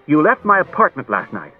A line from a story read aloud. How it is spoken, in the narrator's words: Daniil sharply and said